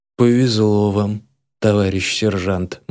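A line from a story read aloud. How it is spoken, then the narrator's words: Gloomy conclusion, recruit. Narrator (Russian): мрачно заключает один из новобранцев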